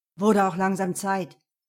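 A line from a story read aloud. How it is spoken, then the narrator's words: Growling. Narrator (German): knurrte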